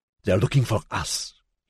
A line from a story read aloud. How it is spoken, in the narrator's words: he hissed